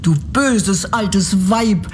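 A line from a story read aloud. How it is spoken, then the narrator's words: Angry girl's cry. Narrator (German): rief das Mädchen und wurde so zornig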